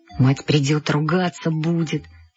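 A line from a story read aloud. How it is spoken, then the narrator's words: Muttering. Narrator (Russian): бормотал он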